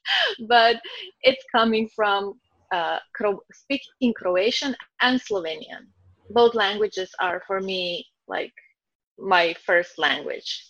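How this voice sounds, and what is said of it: Croatian-accented English. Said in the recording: “from beautiful Croatia... Oh, I love your accent... I don't hear my accent... I think my English is perfect, and I know it's not”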